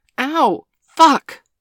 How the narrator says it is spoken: Bailey cried out

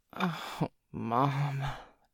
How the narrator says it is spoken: Joey groaned

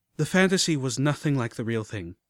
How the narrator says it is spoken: I sighed

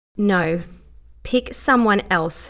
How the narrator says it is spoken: she said, firmly

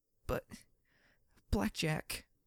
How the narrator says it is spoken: she whimpered

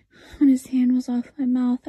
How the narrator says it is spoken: I pleaded

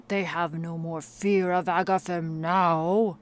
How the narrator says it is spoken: bellowed Grignar in his deep, mirthful tone

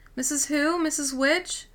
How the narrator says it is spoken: he called out

